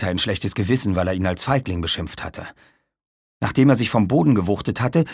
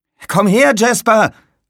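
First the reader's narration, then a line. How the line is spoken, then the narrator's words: Called out. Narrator (German): rief Aaron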